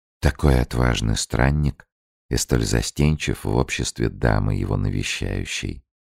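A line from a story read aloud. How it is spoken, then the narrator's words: Whisper. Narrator (Russian): Анна прошептала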